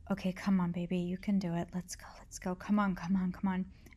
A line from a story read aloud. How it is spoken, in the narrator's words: I softly said